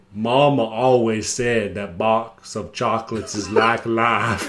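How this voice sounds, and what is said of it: Forrest Gump impression. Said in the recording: “Do your Forrest Gump impression ... Decent impression”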